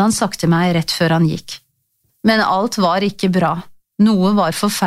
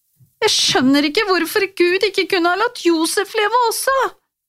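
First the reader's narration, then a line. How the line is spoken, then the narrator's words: Hiccuping sobs. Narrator (Norwegian): hikstet jeg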